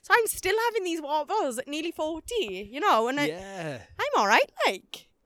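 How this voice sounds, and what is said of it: Welsh accent. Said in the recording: “I was the only Welsh person there ... my accent”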